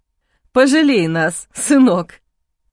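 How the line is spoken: Mocking laugh. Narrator (Russian): посмеялся Сергей Викторович

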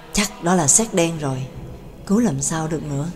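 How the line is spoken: Muttered near-whisper. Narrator (Vietnamese): Xin lẩm bẩm gần như thì thầm

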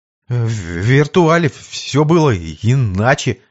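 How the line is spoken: Stammering. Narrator (Russian): заикаясь, ответил парень

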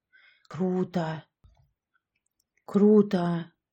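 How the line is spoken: Whispered. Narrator (Russian): прошептала Яшка

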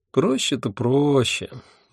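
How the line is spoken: Dreamy sigh. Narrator (Russian): мечтательно вздохнула Альвианта

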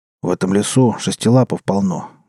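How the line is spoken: Grumbling mutter. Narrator (Russian): буркнул он гусляру

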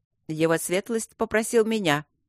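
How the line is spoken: Sudden sharp interjection. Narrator (Russian): неожиданно резко встрял Доулсон-младший

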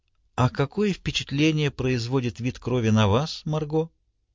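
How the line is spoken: Whisper. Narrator (Russian): шепнул

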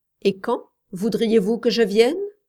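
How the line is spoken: Rather cold question. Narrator (French): demanda-t-elle assez froidement

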